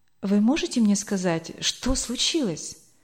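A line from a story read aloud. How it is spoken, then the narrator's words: Pale whisper. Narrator (Russian): Бледнее прошептала Эльвира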